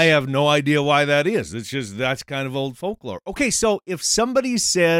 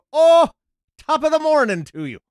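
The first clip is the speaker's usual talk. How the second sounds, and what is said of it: Good put-on Irish accent. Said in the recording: “you had a really good accent there ... I'm not Irish. I just work on my accent”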